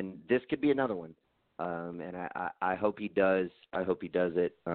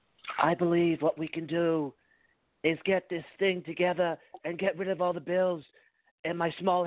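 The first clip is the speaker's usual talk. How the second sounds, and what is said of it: Imitates another person's voice. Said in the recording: “impression ... started on Trump and started trending towards Bobby Kennedy”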